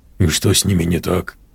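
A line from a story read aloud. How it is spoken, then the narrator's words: Whisper. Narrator (Russian): прошептал Олег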